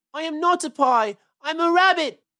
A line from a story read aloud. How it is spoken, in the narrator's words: wailed Peter suddenly